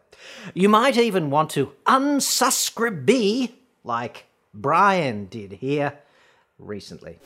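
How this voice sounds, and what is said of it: Strong Australian accent. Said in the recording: “my atrocious Australian accent, mate”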